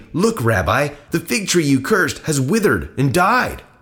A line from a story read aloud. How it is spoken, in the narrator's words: Peter remembered what Jesus had said to the tree on the previous day and exclaimed